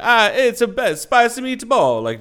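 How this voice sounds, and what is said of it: Bad exaggerated Italian accent. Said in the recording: “just shameful Italian impersonation ... Just terrible”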